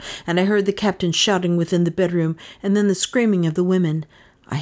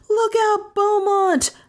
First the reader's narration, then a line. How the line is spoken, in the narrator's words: I shouted in a sort of scream